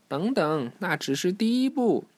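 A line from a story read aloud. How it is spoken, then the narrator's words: Shouting. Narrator (Chinese): 小飞鱼在喊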